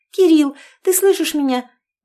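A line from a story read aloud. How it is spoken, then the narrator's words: Agitated blurting. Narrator (Russian): взволнованно выпалила Оленька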